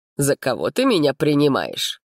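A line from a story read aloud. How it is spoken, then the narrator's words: Snorted. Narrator (Russian): фыркнул дракон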